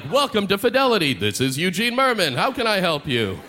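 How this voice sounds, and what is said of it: Exaggerated movie-trailer announcer voice. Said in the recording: “I'd answer them in my movie phone voice.”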